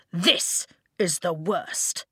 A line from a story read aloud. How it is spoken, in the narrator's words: Tompkin spat